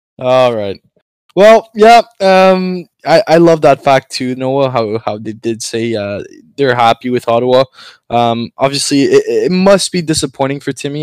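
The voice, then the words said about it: French Canadian accent. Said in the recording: “we know my accent is bad... as a French Canadian”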